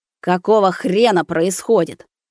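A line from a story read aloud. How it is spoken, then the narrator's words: Roaring. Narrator (Russian): Взревел Заверин старший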